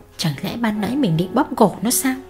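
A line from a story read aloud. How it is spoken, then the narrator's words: Muttering. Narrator (Vietnamese): mụ lẩm bẩm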